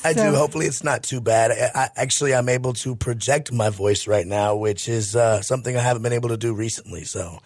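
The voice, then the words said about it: Raspy voice. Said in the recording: “You sound like Scott Burrell's little brother with that raspy voice.”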